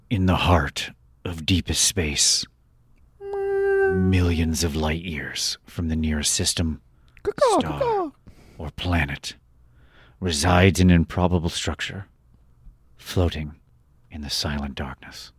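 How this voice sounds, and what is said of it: Dramatic narrator voice. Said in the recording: “Read it in your best narrator voice.”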